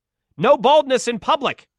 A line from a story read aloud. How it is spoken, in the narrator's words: he shouted